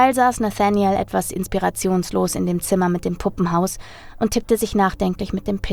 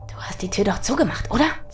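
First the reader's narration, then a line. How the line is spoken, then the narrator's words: Quiet hiss. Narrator (German): zischte er leise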